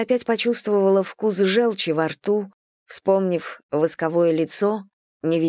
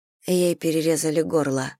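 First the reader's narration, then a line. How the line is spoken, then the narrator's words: Mutter. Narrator (Russian): пробормотала Селия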